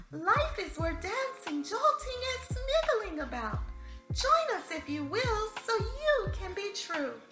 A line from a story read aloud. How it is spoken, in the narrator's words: Sandy Wu exclaimed